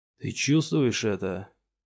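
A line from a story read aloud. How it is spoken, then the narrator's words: Through gritted teeth. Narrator (Russian): процедил сквозь зубы Пилс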